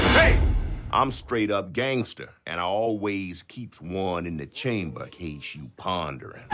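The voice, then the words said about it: Tough street gangster character voice. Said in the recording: “talking like a ghetto person ... a pretty convincing Omar from the HBO program The Wire”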